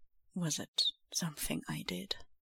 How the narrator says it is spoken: Quietly he asks

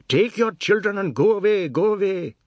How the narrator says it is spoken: Biswas shouted

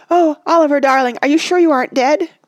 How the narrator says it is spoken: cried Randy idiotically

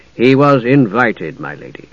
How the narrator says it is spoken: Dalimar said dryly

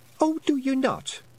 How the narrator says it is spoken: said Fionn sharply

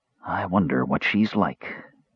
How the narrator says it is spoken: Caramon said very softly

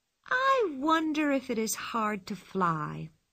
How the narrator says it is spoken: said Pippi, looked dreamily

